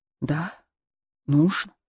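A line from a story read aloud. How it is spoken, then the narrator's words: Whisper. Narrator (Russian): Рауль прошептал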